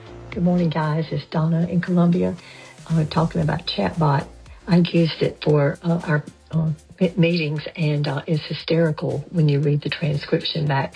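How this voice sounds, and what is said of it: Southern American accent. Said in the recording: “I understood every syllable she said, even though I don't have a Southern accent.”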